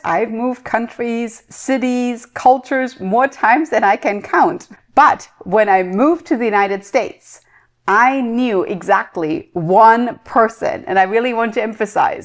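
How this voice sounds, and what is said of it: Speaks with a noticeable accent. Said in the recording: “you can obviously hear it in my accent, of course.”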